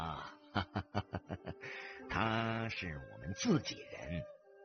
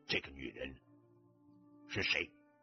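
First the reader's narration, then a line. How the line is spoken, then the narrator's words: Cold question. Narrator (Chinese): 崔老三冷冷地问道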